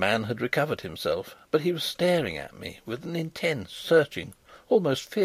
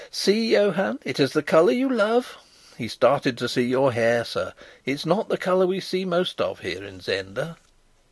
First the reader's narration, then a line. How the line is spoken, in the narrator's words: the merry girl began to laugh as she called